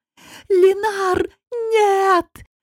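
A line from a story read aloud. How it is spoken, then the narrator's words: Frantic scream, voice unrecognizable. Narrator (Russian): Не своим голосом закричала Гота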